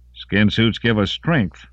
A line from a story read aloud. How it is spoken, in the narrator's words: Lawrence said cheerfully